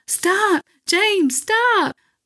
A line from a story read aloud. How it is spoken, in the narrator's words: Missy started screaming